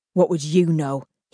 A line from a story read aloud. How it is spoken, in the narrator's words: grunted